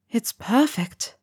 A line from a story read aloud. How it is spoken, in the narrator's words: Helga murmured